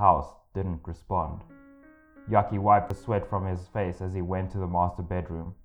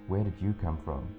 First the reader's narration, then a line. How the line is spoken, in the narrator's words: whispered